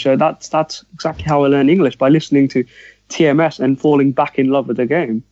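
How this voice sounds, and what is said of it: Posh-sounding English accent. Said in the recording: “that's why you speak so posh then”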